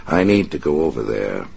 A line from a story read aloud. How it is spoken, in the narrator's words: the man who called himself Big Jack said quietly